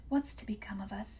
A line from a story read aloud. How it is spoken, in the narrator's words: she whispered, trembling